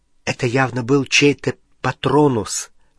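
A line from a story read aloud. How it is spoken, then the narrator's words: Exclamation. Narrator (Russian): воскликнула она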